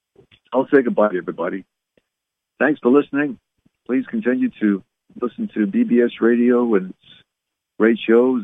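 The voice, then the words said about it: Raspy, strained voice. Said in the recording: “My voice is getting a little bit raspy”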